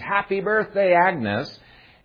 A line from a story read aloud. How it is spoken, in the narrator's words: everybody jumps up and screams